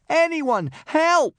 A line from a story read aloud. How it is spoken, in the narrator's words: cried Hiccup